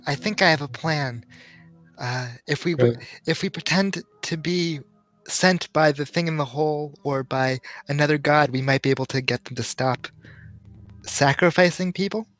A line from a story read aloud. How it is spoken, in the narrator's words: Leon goes over to Baldrin and whispers